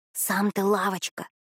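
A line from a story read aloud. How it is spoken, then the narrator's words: Whispered. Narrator (Russian): прошептала Натусик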